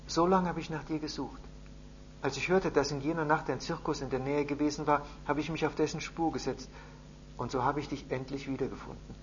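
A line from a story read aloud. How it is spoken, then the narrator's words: Father speaking softly, close. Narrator (German): Sein Vater berichtete leise, ganz nah an seinem Ohr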